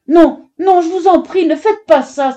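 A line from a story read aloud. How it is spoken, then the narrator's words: Tearful cry. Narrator (French): s'écria-t-elle, les larmes aux yeux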